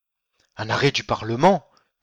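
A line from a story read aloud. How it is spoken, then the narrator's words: Muffled exclamation. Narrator (French): s'exclama sourdement le seigneur de Pienne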